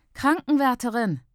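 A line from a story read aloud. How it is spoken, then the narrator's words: Nursing student calling out. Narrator (German): ruft Schwesternschülerin der Frau zu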